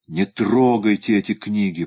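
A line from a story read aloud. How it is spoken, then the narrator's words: Moaning. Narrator (Russian): простонал Шик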